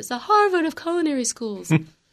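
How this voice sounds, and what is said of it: Imitates another person's voice. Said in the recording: “Not a very good impression, but the best I can do.”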